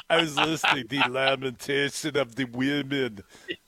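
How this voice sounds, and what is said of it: Arnold Schwarzenegger impression. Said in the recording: “best Arnold Schwarzenegger impression”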